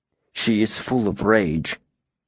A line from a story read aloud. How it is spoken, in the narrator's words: Tempe said quietly